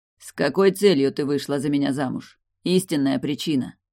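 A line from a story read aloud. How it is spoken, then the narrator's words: Cold tone, hidden pain. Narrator (Russian): За холодным тоном слышалась боль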